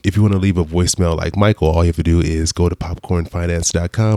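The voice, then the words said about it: Tired, low-energy, slightly off voice. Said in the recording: “I sound a little weird today. I'm recovering from a sinus surgery I had a few days ago. I'm still a little out of it ... hopefully I don't sound too much like a like a zombie or like I'm, I'm half asleep ... I'm a little, a little tired”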